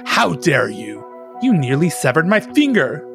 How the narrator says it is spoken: The older sibling exclaimed

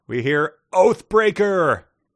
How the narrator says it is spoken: cried Rule from his perch on Bastion's shoulders

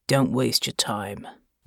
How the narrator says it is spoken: growled

